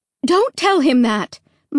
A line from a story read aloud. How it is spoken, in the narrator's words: Mom cried sharply